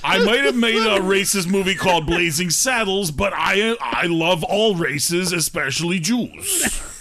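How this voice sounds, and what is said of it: Bad Mel Brooks impression. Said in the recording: “I'm Mel Brooks this week... that's the worst Mel Brooks ever... It's like if Hitler did a Mel Brooks impression.”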